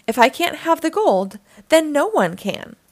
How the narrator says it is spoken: cried La Sirena Mala

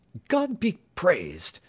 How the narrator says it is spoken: cried James Playfair

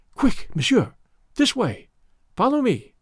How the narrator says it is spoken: a woman's voice whispering

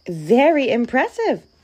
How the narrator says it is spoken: exclaimed the mouse

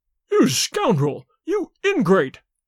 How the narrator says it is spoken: howled the servant

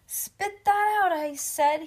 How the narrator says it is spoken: he yelled again

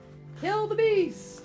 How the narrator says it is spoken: We heard the hunter shout

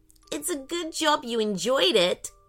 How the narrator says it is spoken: giggled Ellie

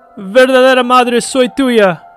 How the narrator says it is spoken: shouted

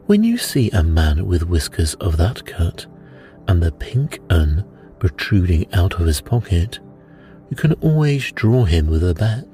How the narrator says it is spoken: said he

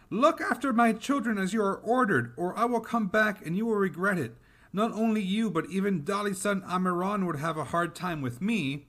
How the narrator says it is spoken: The mother heard the voices, became angry, and shouted at Amiran

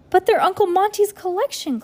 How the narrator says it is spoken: Klaus cried

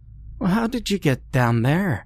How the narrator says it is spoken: she sighed

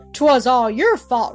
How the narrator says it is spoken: roared Kit

